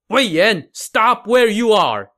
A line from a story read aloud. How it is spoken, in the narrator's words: Wang Shuang shouted